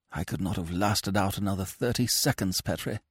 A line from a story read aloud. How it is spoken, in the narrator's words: he whispered